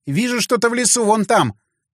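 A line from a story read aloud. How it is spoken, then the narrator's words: Sudden shout from above. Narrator (Russian): вдруг крикнула Мила с крыши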